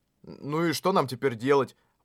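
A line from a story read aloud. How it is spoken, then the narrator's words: Muttering. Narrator (Russian): пробормотал Кирита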